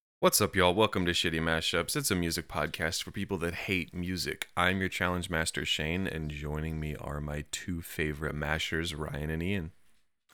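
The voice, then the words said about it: Soothing deep voice. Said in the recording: “You got a nice soothing deep voice going on right now”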